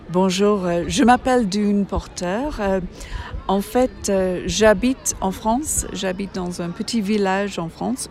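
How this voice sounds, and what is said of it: Slight English accent speaking French. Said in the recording (French): “je ne suis pas d'origine française, je suis d'origine anglaise. Vous avez peut-être remarqué un petit accent.”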